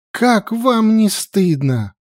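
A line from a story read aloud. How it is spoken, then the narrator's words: Exclaimed. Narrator (Russian): воскликнула она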